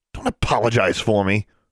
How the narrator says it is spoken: she snapped over her shoulder

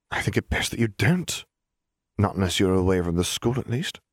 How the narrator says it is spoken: she sighed

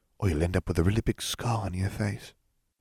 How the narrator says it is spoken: she whispered

